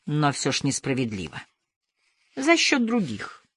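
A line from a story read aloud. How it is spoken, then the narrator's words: Quiet. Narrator (Russian): тихо сказала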